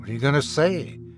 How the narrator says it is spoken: Luke muttered

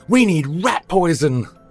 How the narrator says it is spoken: Victor yelled

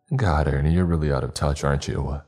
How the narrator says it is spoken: I chuckled

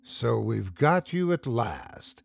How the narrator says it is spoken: grimly

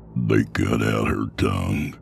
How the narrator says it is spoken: Sutter said, his voice thick

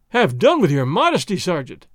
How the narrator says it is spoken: Don Diego cried

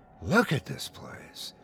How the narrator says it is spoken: Ida murmured

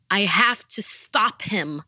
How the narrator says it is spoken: I shouted

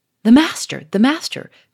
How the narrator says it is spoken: cried Charolais, in a tone of extravagant relief

